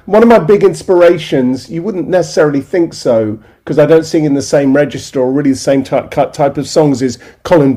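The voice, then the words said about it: British accent with slight American twang. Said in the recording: “people in America always tell me I have, you know, such a British accent... they can hear the American twang in my voice”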